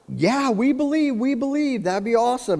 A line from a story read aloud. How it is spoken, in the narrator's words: they all scream out